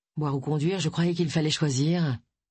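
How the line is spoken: Grumbled. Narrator (French): grommela Agatha

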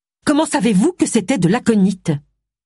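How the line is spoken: Woman asks harshly. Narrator (French): demanda-t-elle durement

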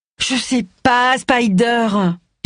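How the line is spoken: Moaning. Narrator (French): gémit-elle

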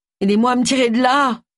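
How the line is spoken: Moaning. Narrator (French): gémit Agatha

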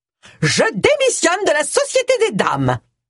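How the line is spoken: Shouted. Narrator (French): cria Mrs

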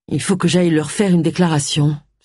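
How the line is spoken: Sighed. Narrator (French): soupira Agatha

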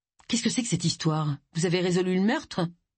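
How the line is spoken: Plain question. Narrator (French): demanda-t-il

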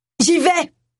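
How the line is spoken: Exclaiming. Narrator (French): s'écria Roy

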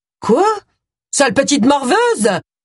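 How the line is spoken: Shouting. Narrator (French): s'écria Dolores

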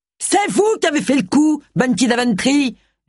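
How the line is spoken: Yelled. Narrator (French): hurla

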